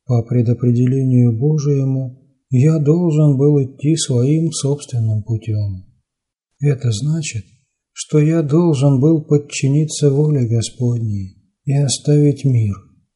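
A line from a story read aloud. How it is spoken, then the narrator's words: Calm reply. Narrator (Russian): спокойным голосом ответил отец Афанасий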